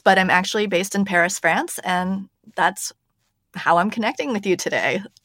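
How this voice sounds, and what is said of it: American accent. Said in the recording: “I am an American, if you can hear by my voice”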